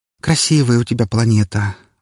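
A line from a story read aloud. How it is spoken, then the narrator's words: Dreamy sigh. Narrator (Russian): вздохнула, с мечтательным видом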